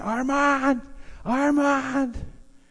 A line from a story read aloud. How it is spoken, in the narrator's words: he's yelling, and he's at it for hours